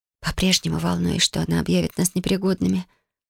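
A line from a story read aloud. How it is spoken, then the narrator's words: Whisper. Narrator (Russian): прошептала Юми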